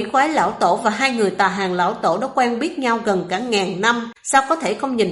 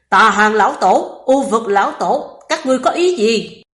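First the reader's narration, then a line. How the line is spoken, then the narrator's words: Angry roar mid-battle. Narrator (Vietnamese): quỷ quái lão tổ đang đánh nhau trên không bỗng gầm lên giận dữ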